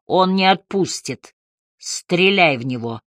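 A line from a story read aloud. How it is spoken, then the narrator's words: Hoarse hiss. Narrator (Russian): хрипло прошипел Харри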